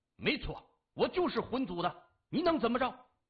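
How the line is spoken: Loud. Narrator (Chinese): 他大声说

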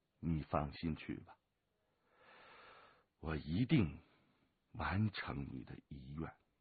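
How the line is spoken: Low, resolute. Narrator (Chinese): 他咬了咬牙，低声地说

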